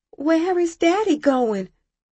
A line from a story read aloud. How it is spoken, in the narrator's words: I cried to Mama